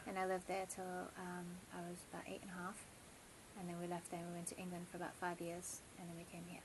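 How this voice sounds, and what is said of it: South African and British accent. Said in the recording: “you grew up in South Africa and the UK? ... So that's where you get your delicious accent from? ... many people are like, I love, you know, ... accent.”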